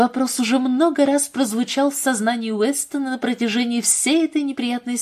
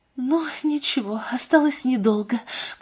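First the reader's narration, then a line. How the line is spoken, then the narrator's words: Whispered to herself. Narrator (Russian): прошептала она себе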